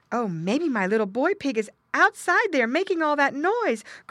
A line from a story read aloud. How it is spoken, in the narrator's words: cried Mrs